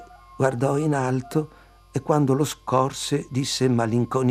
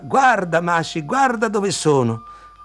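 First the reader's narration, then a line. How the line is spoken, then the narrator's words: Shouting down from above. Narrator (Italian): urlò giù alla nonna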